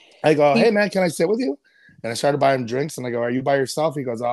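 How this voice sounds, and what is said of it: Usual voice. Nothing is said of it.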